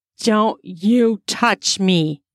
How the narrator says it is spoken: growled

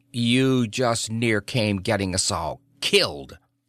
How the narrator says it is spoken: snapped the guesser

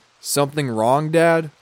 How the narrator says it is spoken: I asked him

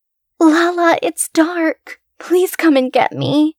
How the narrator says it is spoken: Ruby's new voice cried from outside

